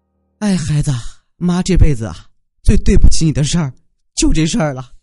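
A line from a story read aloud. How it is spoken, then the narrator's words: Sighing mother. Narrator (Chinese): 他妈叹了一口气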